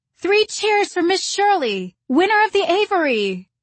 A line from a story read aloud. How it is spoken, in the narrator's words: somebody called out